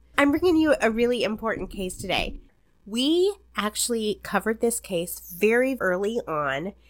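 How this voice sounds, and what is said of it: Slightly stuffy, congested voice. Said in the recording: “If I sound a little funny, I'm getting over a little head cold. Excuse my voice.”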